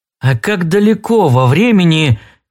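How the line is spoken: Hesitant. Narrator (Russian): неуверенно начал Холл

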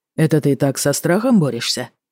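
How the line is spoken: Amused snort. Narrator (Russian): хмыкнул Тагаев

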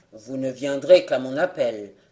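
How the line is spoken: Curt tone. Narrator (French): dit d'un ton bref

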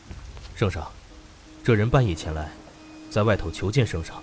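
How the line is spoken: Guard, low voice. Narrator (Chinese): 侍卫 低声道

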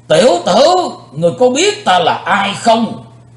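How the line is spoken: Thunderous angry roar. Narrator (Vietnamese): Vị tà thần như nổi giận, quát chấn động bốn bề vách đá

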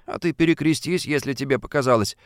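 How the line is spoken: Calm advice. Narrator (Russian): спокойно посоветовал ему Фадейкин

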